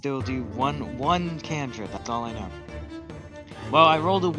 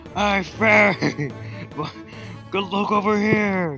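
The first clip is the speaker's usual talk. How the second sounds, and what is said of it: Booming loud voice. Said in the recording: “my voice just booms again”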